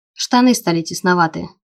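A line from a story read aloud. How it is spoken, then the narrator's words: Grumbling. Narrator (Russian): проворчал он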